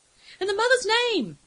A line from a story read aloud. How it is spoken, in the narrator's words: Eshime screamed against the wind